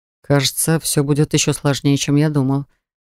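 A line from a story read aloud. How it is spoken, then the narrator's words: Demon muttering. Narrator (Russian): пробормотал демон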